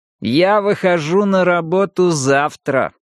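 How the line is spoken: Displeased, through clenched teeth. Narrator (Russian): с явным неудовольствием процедил Пилас

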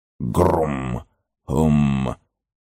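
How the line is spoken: Low woodwind-like mumble. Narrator (Russian): пробормотал голос, низкий, как у какого-нибудь деревянного духового инструмента

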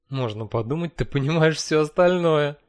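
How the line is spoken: Laughing. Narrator (Russian): рассмеялась она

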